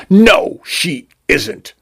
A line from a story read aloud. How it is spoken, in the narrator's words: Vacuol spat